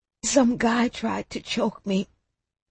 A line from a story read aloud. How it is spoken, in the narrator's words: I whispered in a raspy voice